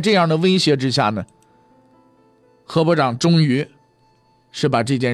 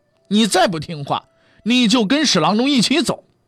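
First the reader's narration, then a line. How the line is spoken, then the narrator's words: Angry threat. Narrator (Chinese): 严嵩怒了，托人告诉了何部长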